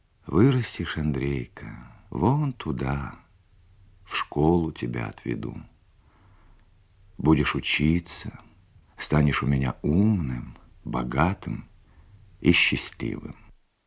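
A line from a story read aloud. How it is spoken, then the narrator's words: Dreamy, tender mother. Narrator (Russian): мама мечтательно, ласково говорила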